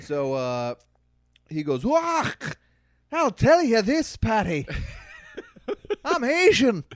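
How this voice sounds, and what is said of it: Light Scottish accent. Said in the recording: “Guy with a light Scottish accent ... I opted on the side of Scottish”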